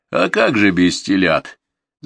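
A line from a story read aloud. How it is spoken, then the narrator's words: Laughing. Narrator (Russian): засмеялся Корытин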